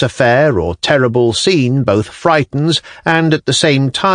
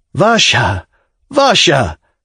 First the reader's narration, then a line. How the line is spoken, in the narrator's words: cried Arkady Ivanovich, sobbing